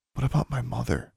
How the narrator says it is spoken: asked quietly

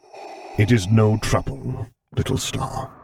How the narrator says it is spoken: he muttered back

